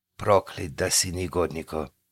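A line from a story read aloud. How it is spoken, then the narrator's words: Barely audible cursing. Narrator (Russian): едва слышно ругался Захарий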